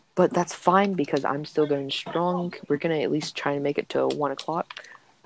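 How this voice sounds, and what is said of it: Tired, changed-sounding voice. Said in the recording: “my voice has changed drastically because I'm starting to get tired”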